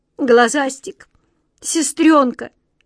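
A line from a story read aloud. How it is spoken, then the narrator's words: Sobbing shout. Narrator (Russian): рыдая, крикнула Ниточка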